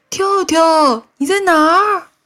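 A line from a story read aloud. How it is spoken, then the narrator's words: Repeated calling. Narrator (Chinese): 蹦蹦在朦朦胧胧的夜色里喊了一遍又一遍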